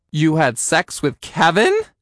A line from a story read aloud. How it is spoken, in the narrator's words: I asked, my voice going high